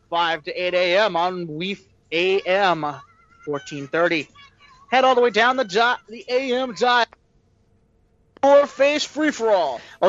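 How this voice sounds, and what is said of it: Wacky radio DJ voice. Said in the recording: “the wacky DJ voice”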